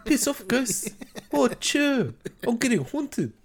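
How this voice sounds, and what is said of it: Put-on New Zealand accent. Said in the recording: “I fucking love the New Zealand accent.”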